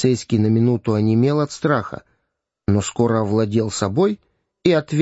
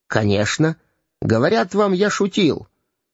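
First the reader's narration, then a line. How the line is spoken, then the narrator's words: Sharp, policeman. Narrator (Russian): резко сказал полицейский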